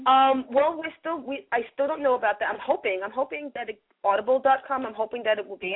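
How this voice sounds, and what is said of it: New York accent. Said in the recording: “a New Yorker's book with my New York accent.”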